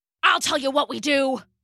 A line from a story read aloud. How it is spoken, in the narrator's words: growled Rambo